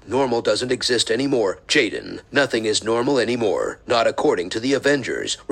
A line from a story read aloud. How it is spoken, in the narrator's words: responded bitterly